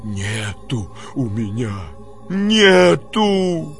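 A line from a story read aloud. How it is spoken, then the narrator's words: Wheezed hoarsely. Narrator (Russian): прохрипел Никанор Иванович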